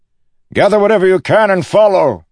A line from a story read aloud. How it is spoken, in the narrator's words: he shouted